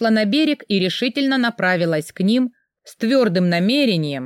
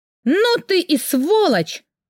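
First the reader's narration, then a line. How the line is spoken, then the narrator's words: Furious shout. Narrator (Russian): в ярости прокричала я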